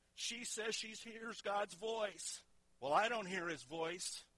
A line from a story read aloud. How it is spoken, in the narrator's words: they mocked her saying